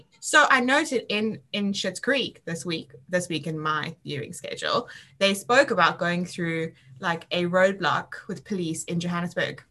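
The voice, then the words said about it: South African accent. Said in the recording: “that's the strange accent going on. I'm from Africa.”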